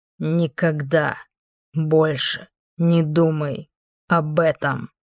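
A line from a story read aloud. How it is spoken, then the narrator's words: Clipped, emphatic. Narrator (Russian): отчеканил он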